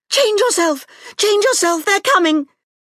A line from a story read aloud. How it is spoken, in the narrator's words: Serret shrieked